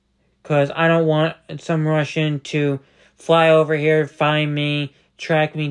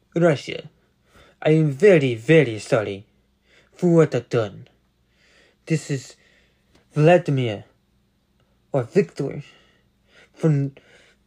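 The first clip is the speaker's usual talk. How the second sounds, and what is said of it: Imperfect put-on Russian accent. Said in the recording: “This is my Russian impression ... I was doing my Russian impression. It's not perfect. Again, I just wanted to say it in that accent”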